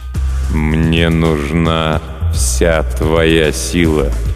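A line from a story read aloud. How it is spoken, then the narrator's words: Slow speech. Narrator (Russian): медленно произнес некромант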